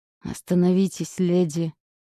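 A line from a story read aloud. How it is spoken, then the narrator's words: Pained, through teeth. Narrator (Russian): Сквозь зубы процедил Дилан, словно от боли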